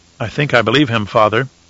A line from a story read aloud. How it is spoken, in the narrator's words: Leto said quietly